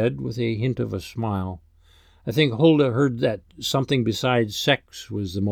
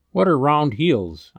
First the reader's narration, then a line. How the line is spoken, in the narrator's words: I asked